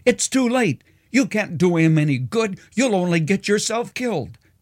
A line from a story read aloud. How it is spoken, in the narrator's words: the sergeant in charge yelled